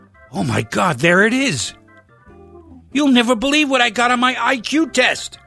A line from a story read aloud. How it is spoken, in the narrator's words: he shouted it out